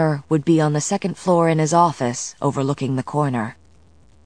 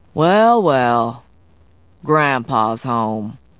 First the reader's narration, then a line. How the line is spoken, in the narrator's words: Ransom said in a treacle-dipped drawl